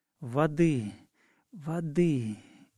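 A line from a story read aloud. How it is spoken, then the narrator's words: Hoarse voice. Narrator (Russian): говорила она хриплым голосом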